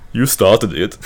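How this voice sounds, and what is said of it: Imitates another person's voice. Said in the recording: “That's a really good impression, isn't it? ... You should do impressions.”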